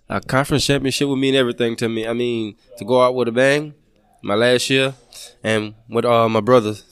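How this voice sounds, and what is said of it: Louisiana regional accent. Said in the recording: “I can tell by your accent where you're from ... your home state ... Louisiana State”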